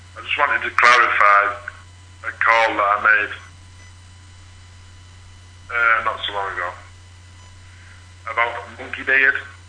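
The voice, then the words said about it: Thick Geordie English accent. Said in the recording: “this is a very thick accent. I'm assuming it's a limey accent, English accent... It's a Jordy accent.”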